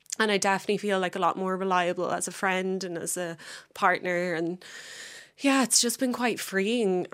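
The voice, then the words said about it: Emotional, strained voice. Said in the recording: “this is like not easy for me to talk about, as you can probably tell by my voice”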